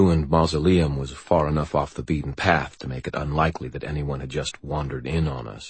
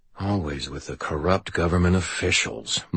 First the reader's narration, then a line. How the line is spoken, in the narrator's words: muttered the wizard from behind me